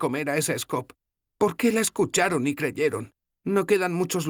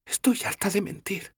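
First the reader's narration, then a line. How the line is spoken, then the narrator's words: Whispering. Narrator (Spanish): susurró Sefawin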